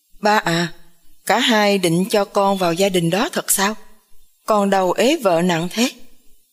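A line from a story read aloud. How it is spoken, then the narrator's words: Laughing loudly. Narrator (Vietnamese): Khang lại cười to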